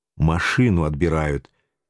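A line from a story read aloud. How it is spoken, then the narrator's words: Quiet, patient explaining. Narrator (Russian): тихо и терпеливо втолковал я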